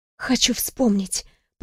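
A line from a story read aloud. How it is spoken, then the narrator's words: Whispering. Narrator (Russian): прошептала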